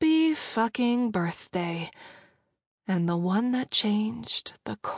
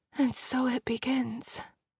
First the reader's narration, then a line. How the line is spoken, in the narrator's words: Frida murmured